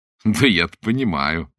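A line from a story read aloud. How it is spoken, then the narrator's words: Laughing. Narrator (Russian): засмеялся Блад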